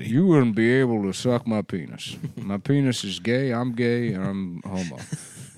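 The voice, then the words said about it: Imitates another person's voice. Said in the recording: “shitty impression ... That's a good impression.”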